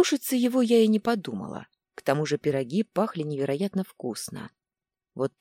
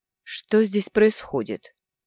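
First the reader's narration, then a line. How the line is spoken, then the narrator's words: Dry question. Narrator (Russian): сухо спросил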